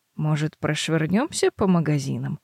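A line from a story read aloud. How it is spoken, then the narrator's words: Gentle suggestion. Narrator (Russian): ласково предлагает она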